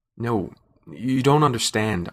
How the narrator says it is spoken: I stammered

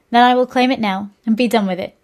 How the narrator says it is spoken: she laughed

